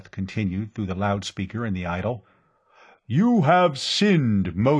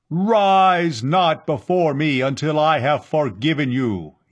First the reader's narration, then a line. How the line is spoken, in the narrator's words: Yat-Zar thundered